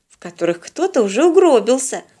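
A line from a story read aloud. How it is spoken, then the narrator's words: Wary grumble. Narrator (Russian): опасливо проворчала Полина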